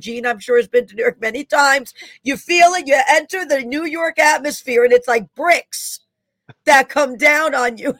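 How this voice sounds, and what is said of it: Bronx New York accent. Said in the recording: “I knew I heard your accent there ... I'm Bronx ... that's where the accent comes from.”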